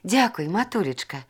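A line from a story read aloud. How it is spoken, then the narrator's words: Whisper. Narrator (Belarusian): прашаптала Зіна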